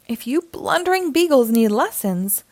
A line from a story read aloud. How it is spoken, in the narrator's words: grumbled Mayor Humdinger